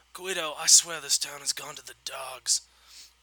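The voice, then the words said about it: Mob boss character accent. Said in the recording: “Here come the accents ... There are accents ... it's been so long since I've done Mob Boss”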